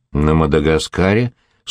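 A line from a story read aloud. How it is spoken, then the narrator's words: Dry reply. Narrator (Russian): сухо ответил Лаврик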